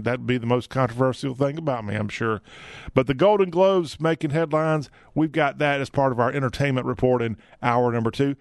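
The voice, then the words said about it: Southern American accent. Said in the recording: “I just have a Southern accent.”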